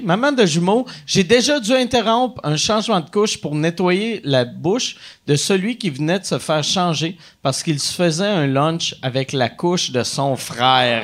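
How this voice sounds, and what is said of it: Put-on Acadian French accent. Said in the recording (French): “Faut-tu que je le lise avec un accent euh, ... acadien?”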